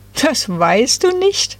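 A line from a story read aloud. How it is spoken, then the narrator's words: Giggling trio. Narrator (German): kicherten die drei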